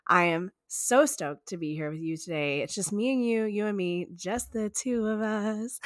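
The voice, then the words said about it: Sick-sounding voice. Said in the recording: “You can hear it in my voice. I have been sick. I am almost better.”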